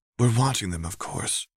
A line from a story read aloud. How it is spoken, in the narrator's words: Anna whispered back